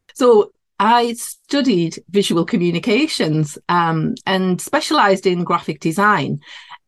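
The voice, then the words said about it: Geordie northeast English accent. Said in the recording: “you might be able to tell by my accent. I'm in the northeast of England. So yeah, this would be classed as a Geordie accent”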